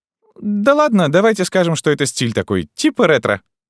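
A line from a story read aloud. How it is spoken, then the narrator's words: Cheerfully suggested. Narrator (Russian): бодро предложила Вик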